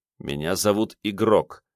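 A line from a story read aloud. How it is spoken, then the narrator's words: Angry, through gritted teeth. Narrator (Russian): сквозь зубы процедил Карташов, чувствуя, что снова начинает злиться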